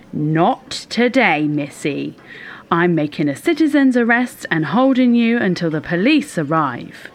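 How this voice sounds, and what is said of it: Shouted commanding voice. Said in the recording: “shouting in my most commanding voice”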